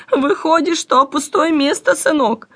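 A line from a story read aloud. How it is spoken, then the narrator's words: Old woman, confused, embarrassed laugh. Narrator (Russian): растерянно отвечала старуха и, в свою очередь, сконфуженно рассмеялась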